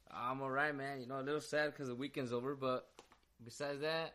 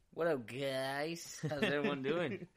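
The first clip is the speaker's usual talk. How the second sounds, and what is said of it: Greeting with a slight put-on accent. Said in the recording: “that little switch in the tone when you say that ... with a little accent”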